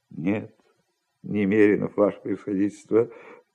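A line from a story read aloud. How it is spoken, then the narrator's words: Reply with guilty sigh. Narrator (Russian): ответил Иван Евсеевич и виновато вздохнул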